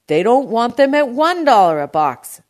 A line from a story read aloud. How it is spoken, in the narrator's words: D'Agostino shouted